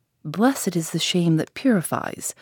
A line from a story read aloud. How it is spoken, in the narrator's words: I inwardly murmured